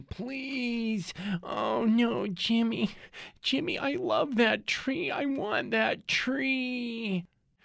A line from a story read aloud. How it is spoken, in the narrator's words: His girlfriend, a large person, is wailing